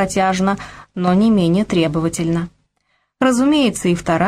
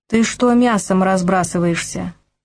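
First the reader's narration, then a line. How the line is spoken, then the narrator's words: Displeased tone. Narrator (Russian): недовольным тоном поинтересовалась жена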